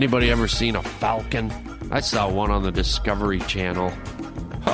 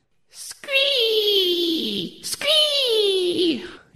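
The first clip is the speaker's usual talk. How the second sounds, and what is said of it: Imitated falcon screech. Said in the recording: “that's my falcon impression”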